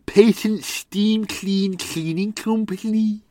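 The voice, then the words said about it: Scouse accent, John Bishop impression. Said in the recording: “imagine a Scouser trying to say that ... That was my John Bishop impression”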